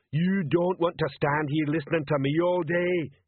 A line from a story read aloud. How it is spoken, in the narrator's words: he bellowed